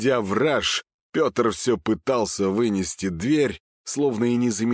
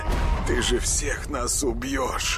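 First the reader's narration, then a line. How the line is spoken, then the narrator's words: Tearful desperate mutter. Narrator (Russian): Слезливо пробормотал он, отчаянно надеясь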